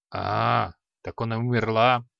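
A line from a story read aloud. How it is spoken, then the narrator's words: Grumbled. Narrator (Russian): проворчал маг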